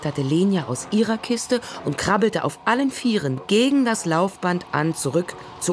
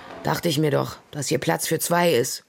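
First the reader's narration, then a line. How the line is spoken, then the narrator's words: Exhausted mutter. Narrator (German): murmelte Ole erschöpft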